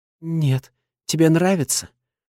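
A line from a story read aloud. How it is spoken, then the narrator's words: Unsure yet relishing question. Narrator (Russian): спрашивает неуверенно, но с наслаждением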